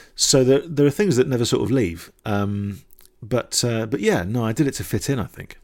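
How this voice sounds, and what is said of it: Mixed, hard-to-place British accent. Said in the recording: “my accent, I think this thing, which is a slight bastardization of the places I've lived and my dad and Dundee and all that kind of stuff, it's sort of slightly, you don't know where it's from, and it's slightly classless”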